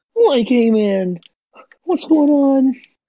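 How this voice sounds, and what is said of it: Good Shaggy cartoon voice impression. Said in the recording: “doing the Shaggy voice and stuff... That is a very good Shaggy impression”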